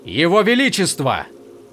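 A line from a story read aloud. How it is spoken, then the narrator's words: Yelling. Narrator (Russian): завопил Каладин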